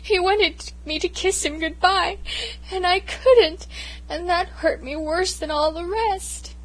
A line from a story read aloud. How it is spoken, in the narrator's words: I sobbed